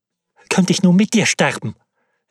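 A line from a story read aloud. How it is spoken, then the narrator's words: Calling out. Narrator (German): rief sie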